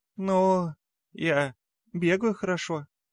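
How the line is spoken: Little mouse, uncertain. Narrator (Russian): неуверенно, ожидая моей реакции, говорит мышонок

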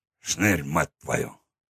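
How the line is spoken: Muttered. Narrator (Russian): Пробормотал он

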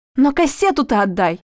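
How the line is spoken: Shouting, voice breaking. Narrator (Russian): закричала Света срывающимся голосом

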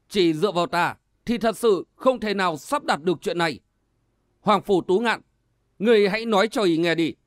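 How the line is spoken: Loud. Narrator (Vietnamese): Cổ Thụy Kỳ lớn tiếng nói

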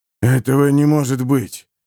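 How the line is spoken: Breathless exhale. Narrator (Russian): выдохнул Харман

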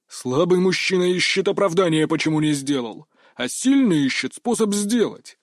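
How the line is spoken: Growled. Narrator (Russian): рыкнул

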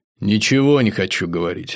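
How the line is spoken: Plain. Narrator (Russian): ответил Саня

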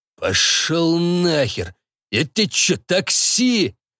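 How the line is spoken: Big man growling close. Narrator (Russian): прорычал мне в лицо здоровяк

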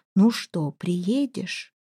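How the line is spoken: Lady's mouthed whisper. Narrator (Russian): Дама одними губами шепнула

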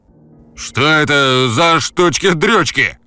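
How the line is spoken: Stern bark, suppressing laughter. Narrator (Russian): Грозно рявкнул Шаолинь, хотя по его лицу было заметно, что он сам едва сдерживался, чтобы не заржать

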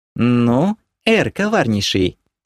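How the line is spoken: Purred. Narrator (Russian): промурлыкала Кира

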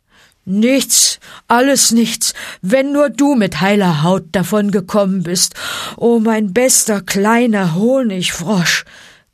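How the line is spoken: Grunting. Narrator (German): grunzte Balu

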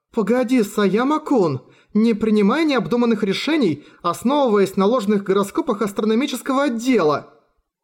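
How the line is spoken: Offscreen exclamation. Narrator (Russian): Воскликнул голос позади грузовика

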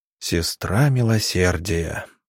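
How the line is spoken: Drawled quietly. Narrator (Russian): негромко протянул доктор

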